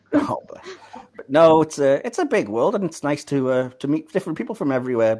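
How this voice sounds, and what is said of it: Northeast English accent. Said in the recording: “my very northeast English accent”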